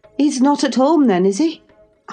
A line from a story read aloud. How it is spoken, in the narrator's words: I panted, quite breathless with quick walking and alarm